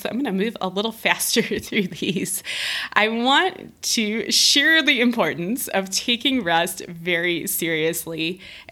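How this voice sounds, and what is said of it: Strained, fading voice. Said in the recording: “I feel like I'm losing my voice.”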